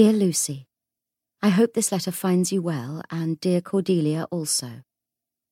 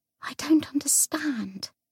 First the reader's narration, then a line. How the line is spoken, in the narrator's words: whispered